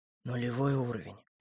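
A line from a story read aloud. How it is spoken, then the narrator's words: Whisper. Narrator (Russian): прошептал он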